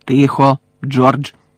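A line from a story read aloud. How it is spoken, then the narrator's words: Sharply cut off. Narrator (Ukrainian): різко урвала його місіс Візлі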